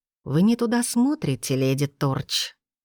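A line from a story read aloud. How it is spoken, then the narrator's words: Silky, almost tender. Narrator (Russian): вкрадчиво, почти нежно произнес начальник департамента имперского сыска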